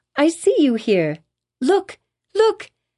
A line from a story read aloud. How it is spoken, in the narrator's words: cried she